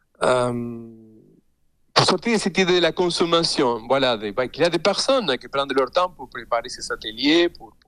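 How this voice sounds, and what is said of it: Non-native French accent. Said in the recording (French): “je parle dans une langue qui n'est pas ma langue maternelle, donc j'ai un accent”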